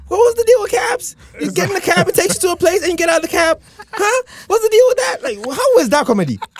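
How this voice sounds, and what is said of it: Good Jerry Seinfeld impression. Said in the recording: “That was a very good Seinfeld impression ... It's on point. That was very on point.”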